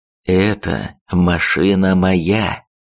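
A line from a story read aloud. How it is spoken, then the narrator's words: Slow, calm, emphatic. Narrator (Russian): проговорил медленно, спокойно, но с нажимом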